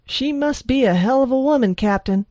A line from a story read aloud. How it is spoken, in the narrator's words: Jose said over the roar of the helo